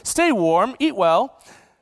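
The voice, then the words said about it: Put-on British accent. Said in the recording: “I just imagine saying this in a British accent”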